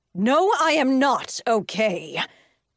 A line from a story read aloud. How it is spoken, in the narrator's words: the woman yelled back